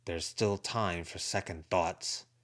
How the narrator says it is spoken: Charles said, his voice rough-edged

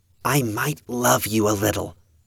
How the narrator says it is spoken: Evan whispered

